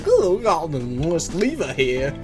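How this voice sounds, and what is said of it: Put-on British accent. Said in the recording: “That's how the British pronounce it... The English pronounce it lever because of their accent.”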